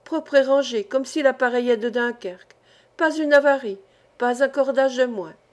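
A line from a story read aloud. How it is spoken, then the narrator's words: Exclaiming. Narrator (French): s'écriait-il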